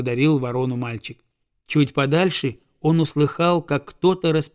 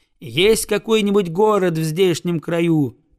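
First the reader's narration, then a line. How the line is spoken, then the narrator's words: Loud question, boy. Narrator (Russian): громко спросил мальчик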